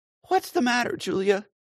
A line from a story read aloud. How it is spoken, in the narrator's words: asked Kate anxiously